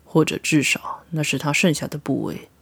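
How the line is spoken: Low voice. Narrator (Chinese): 赫克托低声道

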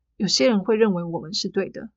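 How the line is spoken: Flat indifferent tone. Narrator (Chinese): 宋英淡淡的说

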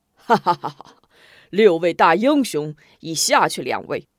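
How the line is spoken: Swaggering laughter. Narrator (Chinese): 门霸连胜二人，更加耀武扬威 哈哈大笑

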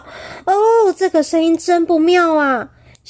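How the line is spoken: Alarmed shout. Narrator (Chinese): 小芬听到声音不禁大叫

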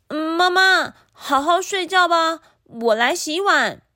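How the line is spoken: Calling out. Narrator (Chinese): 吉米的叫声

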